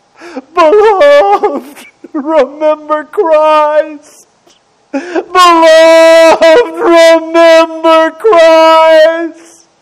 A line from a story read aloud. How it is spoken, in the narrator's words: Through his agony, he cried out